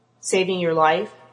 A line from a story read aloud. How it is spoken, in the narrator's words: Max said dryly